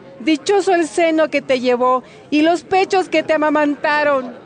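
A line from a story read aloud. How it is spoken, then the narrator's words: Woman speaking aloud. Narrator (Spanish): una mujer de entre la multitud dijo en voz alta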